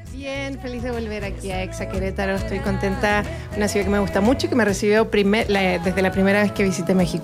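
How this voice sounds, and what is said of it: Chilean Spanish accent. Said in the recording (Spanish): “artista chilena ... Me encanta ese acento, amo ese acento”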